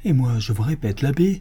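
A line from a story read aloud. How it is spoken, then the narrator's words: Exclaimed. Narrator (French): s'écria Don Diego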